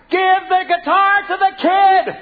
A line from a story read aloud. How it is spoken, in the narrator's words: my father yelled